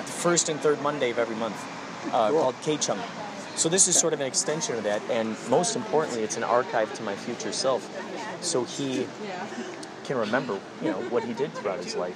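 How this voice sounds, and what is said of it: Strong Chicago accent. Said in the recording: “Where are you from? Wisconsin? ... Chicago ... You got a strong accent ... Chicago, that makes sense.”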